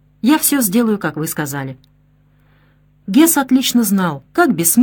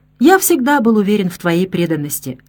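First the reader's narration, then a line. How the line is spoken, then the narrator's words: Plain. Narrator (Russian): сказал Гитлер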